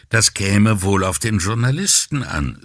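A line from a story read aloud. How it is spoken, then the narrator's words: Calm. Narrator (German): sagte Guarino ruhig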